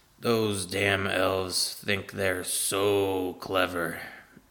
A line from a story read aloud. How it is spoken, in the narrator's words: mutters to himself as he works